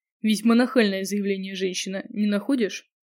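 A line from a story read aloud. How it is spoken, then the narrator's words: Snort. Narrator (Russian): хмыкнул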